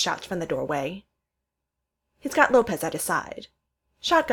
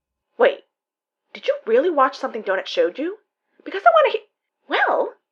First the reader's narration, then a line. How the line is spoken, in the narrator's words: Donut chirps